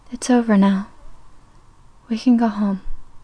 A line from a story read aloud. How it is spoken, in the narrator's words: whispered